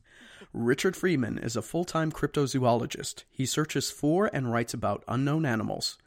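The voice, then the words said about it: Announcer-style radio voice. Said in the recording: “Let me get into radio voice.”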